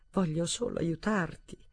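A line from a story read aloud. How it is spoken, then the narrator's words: Moaning. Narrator (Italian): gemette Alexander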